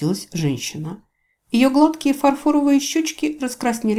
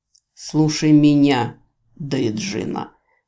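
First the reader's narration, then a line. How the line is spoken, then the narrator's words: Close-up hiss. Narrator (Russian): прошипел лорд-канцлер прямо в лицо магички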